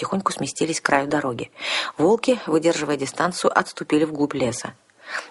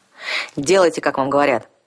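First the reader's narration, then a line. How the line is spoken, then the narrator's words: Growl. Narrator (Russian): рыкнул вампир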